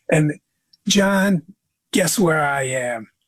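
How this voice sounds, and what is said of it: East Coast accent, Joe Pesci-like. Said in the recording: “got a very unique East Coast accent. And he kind of talks like maybe a Joe Pesci kind of guy.”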